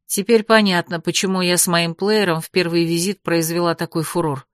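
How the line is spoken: Muttering. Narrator (Russian): пробормотала я

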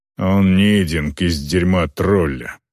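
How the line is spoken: Grumbling. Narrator (Russian): проворчал Морт

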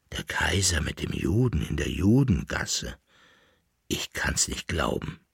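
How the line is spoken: Murmured. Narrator (German): murmelte der Leibnitzer

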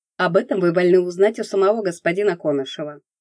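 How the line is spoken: Cold reply. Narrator (Russian): наконец холодно ответил он

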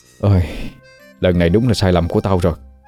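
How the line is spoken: Sighing. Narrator (Vietnamese): Thiên nghe xong thở dài nói

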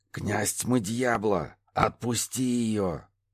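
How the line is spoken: Hissed. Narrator (Russian): прошипел Лефесто

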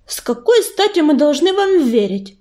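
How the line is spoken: Snapping. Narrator (Russian): огрызнулась она

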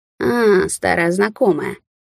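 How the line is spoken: Creaky, disguised voice. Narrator (Russian): проскрипел не своим голосом колючка

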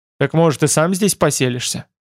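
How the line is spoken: Scoffing. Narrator (Russian): хмыкнул Байда

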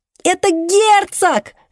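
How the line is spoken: Yelling. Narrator (Russian): вопит Донателло

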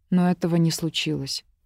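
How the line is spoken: Muffled, flat voice. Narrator (Russian): глухо сказала

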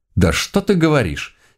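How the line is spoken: Sudden irritation. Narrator (Russian): С неожиданным раздражением заявила няша

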